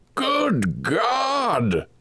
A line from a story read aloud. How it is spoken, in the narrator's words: cried the old man